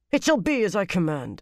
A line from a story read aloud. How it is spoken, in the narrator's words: she snapped